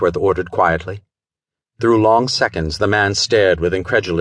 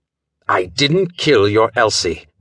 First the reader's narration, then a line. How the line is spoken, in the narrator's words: Wentworth informed him sharply